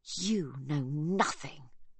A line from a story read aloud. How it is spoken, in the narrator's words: she hisses